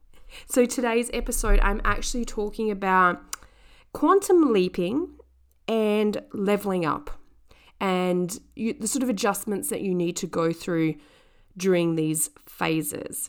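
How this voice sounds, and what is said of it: Sick-sounding voice. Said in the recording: “as you could probably hear from my voice, I am sick... nasty bug”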